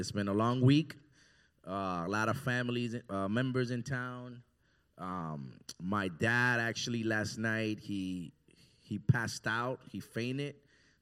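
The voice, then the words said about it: Slightly raspy, tired voice. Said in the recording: “my throat is a little raspy and I'm a little tired”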